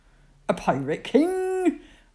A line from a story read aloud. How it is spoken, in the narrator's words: Uncle Sailor Bill laughs